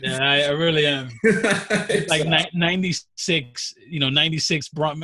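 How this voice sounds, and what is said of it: New York accent. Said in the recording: “CJ voice-shaming me ... Complimenting your accent ... New York accents ... You're from New York, right? ... Your accent”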